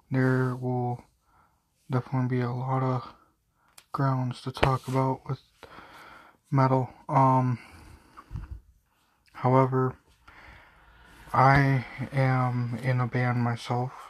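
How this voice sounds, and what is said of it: Tired-sounding voice. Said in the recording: “Sorry for the way my voice sounds right now. I'm very tired.”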